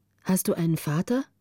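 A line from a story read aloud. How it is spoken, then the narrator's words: Plain. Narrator (German): fragte Greta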